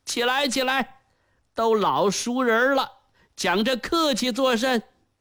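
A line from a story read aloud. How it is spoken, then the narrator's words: Warm smiling. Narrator (Chinese): 冯宝笑容可掬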